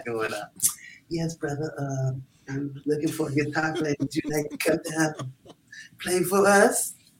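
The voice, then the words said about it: Imitates another person's voice. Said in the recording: “nail that impression, man ... nail it ... frightening how good you are at I, that”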